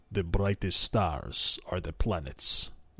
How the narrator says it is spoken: replied Suvor in a low voice

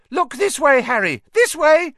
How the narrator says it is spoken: cried shrilly

